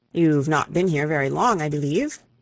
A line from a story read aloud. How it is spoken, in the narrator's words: said Bertie